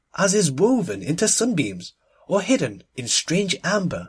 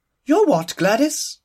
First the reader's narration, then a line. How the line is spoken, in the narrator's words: exclaimed the Duchess, giving an involuntary start